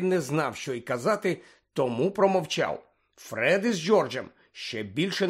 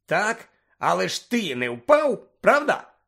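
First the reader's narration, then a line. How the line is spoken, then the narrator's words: Cheerful exclamation. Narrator (Ukrainian): весело вигукнув Амос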